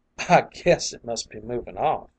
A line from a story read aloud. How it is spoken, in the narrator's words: with a laugh which had an unpleasant ring in it